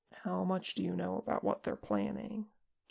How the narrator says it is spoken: Che asked softly

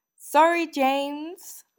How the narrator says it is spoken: Lily called out

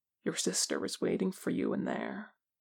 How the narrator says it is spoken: Jin Su says softly

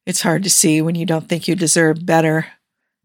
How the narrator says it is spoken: Tony said, his voice slightly rough

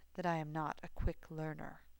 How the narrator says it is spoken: he murmured, mouth hot against Severus's chest

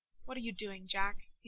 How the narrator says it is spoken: he says

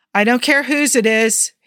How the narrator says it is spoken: he yelled through the door

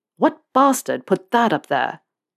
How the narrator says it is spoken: Malfoy spat the words out

